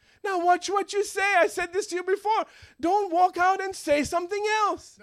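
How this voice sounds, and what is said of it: Usual voice. Nothing is said of it.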